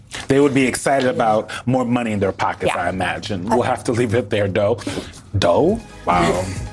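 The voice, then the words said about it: Texas accent slipping out. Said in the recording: “I was back in Texas, babe. My accent coming out.”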